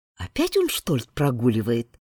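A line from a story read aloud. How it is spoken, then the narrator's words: Quiet question. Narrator (Russian): спросила она у Лемона негромко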